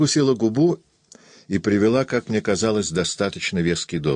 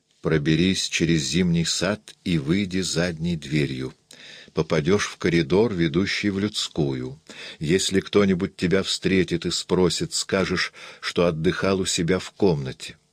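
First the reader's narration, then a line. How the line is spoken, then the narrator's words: Barely audible. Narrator (Russian): произнесла еле слышно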